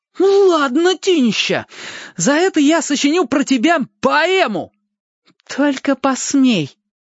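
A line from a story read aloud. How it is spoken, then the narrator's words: Loud announcement. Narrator (Russian): Костик громко сообщил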